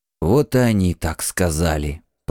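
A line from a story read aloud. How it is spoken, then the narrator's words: Whisper. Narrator (Russian): прошептал Шишес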